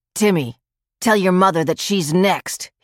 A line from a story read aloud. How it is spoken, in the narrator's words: he shouted